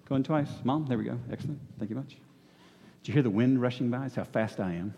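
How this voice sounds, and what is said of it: Out of breath, panting speech. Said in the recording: “I'm out of breath right now”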